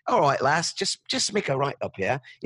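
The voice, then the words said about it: Put-on British accent. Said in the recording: “Maybe it does it in a British accent.”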